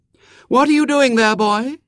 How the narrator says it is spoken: said the little girl in a clear voice

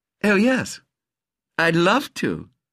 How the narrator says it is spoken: said, smiling on him sweetly

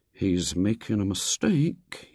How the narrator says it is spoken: he murmured

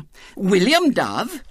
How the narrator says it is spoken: said indignantly

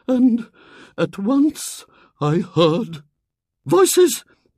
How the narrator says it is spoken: began in a low, quivering voice

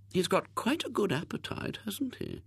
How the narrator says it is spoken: murmured one of the aunts

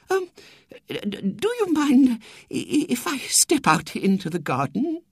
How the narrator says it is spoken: She murmured

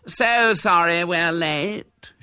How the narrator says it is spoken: said gaily

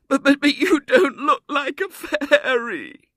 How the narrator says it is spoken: she sobbed

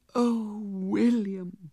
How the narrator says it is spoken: sighed the little girl

